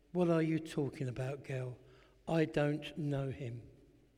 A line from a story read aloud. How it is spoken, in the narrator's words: Peter flatly denied it, saying